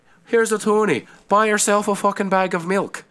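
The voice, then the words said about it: Put-on Irish accent. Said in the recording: “I don't know why I was Irish right there ... It's your go-to accent ... Why am I still doing an Irish accent?”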